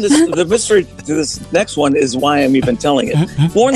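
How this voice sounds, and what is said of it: Usual voice. Nothing is said of it.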